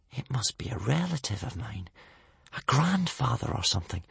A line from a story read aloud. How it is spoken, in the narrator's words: whispered Hiccup